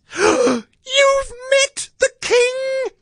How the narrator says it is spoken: squeaked Meerkat

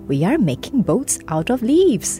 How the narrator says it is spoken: said the ants happily

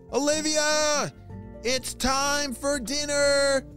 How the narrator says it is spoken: shouted her mom

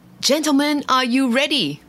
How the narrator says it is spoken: the jester shouted

